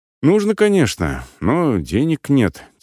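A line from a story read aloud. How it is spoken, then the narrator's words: Heavy sigh. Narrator (Russian): тяжело вздохнул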